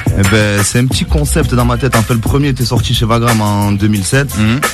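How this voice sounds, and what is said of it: Southern French accent. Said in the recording (French): “ce petit accent ... il vient de Nîmes ... Dans le Gard ... tous les gens du Sud”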